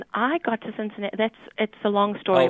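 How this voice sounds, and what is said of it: Strong South African accent. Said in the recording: “I'm South African ... my accent has not changed ... it's still pretty strong”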